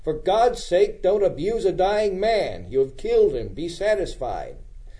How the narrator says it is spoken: Baker exclaimed

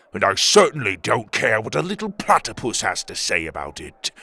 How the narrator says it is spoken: Tuga growled

